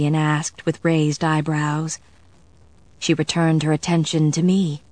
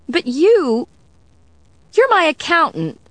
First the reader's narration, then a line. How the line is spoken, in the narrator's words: Sarah sputtered